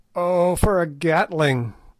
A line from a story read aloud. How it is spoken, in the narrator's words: groaned Good